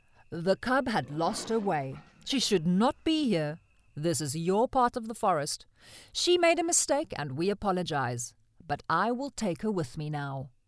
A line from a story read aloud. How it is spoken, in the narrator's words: In a slow, confident voice, he said